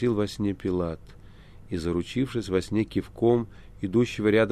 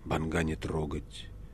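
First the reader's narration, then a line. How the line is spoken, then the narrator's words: Quiet. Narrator (Russian): тихо сказал прокуратор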